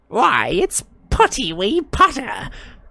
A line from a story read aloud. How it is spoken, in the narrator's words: cackled Peeves